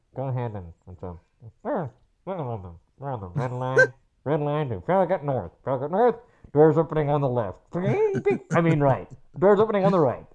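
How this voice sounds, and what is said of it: DC Metro conductor announcement impression. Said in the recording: “who does a great impersonation of them ... the Metro conductors”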